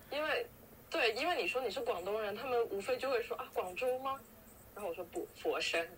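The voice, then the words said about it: Cantonese-accented Mandarin. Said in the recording (Chinese): “我第一反应就是我是广东人啊，你们能听出来吗？我觉得口音就很明显”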